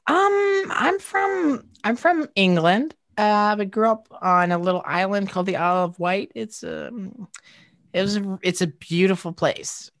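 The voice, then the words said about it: English accent, Isle of Wight. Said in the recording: “Your accent screams Isle of Wight”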